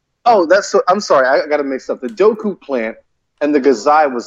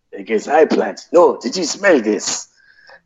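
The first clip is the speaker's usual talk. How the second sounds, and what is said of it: Cartoonish movie turtle character voice. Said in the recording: “the movie turtle voice.”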